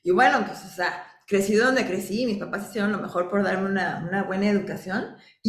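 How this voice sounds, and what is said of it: Tapatío Mexican Spanish accent, posh-sounding. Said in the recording (Spanish): “mi acento, ¿no? Que sueno mamila ... es tapatío, pues, hablo como hablo”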